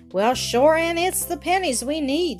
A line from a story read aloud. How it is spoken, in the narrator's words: sighed Mrs